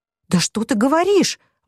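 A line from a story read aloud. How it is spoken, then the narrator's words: Horrified exclamation. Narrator (Russian): воскликнула Кейт таким тоном, будто на самом деле хотела сказать, какой кошмар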